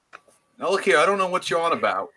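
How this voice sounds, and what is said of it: Bad British accent, sounds New York. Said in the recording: “Not going to do a British accent though ... would be terrible ... That's like New York, Brooklyn. ... Terrible.”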